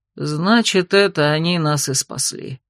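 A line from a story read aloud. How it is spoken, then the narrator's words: Gloomy dragon mutter. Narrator (Russian): мрачно пробормотал дракон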